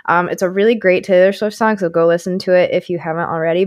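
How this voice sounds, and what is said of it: Slightly hoarse, strained voice. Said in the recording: “my voice is a little weird still from it. Definitely think I got a cold too ... I absolutely screamed at the top of my lungs for 3.5 hours”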